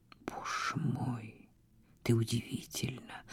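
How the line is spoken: Whisper. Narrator (Russian): прошептал он

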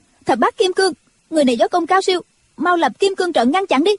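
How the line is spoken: Commanding shout. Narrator (Vietnamese): Triệu Mẫn quát lên

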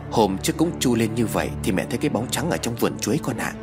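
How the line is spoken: Calling. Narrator (Vietnamese): Bà Tâm gọi con trai

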